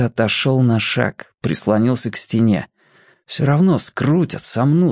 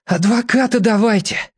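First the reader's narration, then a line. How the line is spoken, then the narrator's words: Hoarse. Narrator (Russian): хрипло сказал Федя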